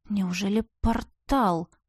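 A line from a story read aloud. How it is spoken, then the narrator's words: Whispered. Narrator (Russian): Прошептала я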